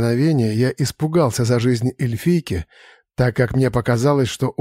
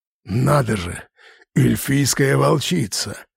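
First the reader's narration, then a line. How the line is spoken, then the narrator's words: Grumbling. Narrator (Russian): проворчал Ргайн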